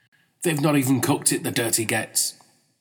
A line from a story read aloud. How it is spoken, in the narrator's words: his face dropped before exclaiming